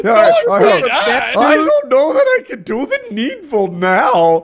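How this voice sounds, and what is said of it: Put-on Indian accent. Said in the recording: “It's Indian. Is that Indian accent?”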